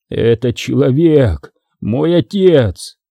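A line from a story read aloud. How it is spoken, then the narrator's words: Hoarse voice. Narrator (Russian): хрипло произнес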